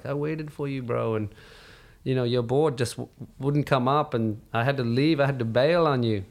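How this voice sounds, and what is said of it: Imitated Tahitian accent. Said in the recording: “in his Tahitian accent”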